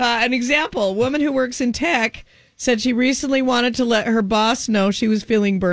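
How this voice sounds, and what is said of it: Usual voice. Nothing is said of it.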